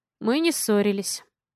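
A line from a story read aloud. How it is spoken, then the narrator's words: Sighing. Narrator (Russian): вздохнул Алекс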